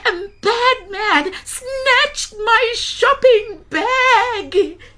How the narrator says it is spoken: cried Gogo

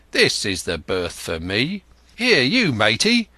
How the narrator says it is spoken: he cried to the man who trundled the barrow

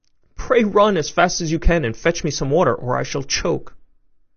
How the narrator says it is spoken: she was in a great fright and cried out to Chanticleer

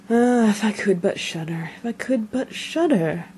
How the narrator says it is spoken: began to mutter to himself

